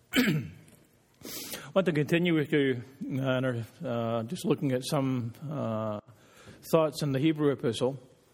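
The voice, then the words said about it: Strained, fading voice. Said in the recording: “I've been singing too much. My voice is starting to go.”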